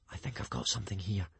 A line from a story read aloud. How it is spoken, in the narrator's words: he whispered